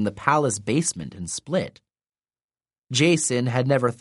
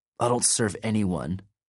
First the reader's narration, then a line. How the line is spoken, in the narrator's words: Nico muttered